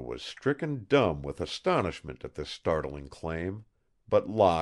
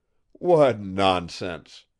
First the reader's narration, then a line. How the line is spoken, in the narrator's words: he scoffed